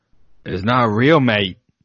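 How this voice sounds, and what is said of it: Bad put-on Australian accent. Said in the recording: “That was the worst accent I've ever done.”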